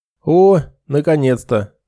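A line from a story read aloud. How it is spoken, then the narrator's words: Joyful booming healer. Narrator (Russian): радостно прогудел лекарь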